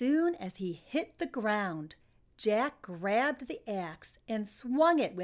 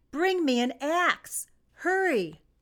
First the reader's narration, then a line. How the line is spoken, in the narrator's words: Jack saw his mother and called out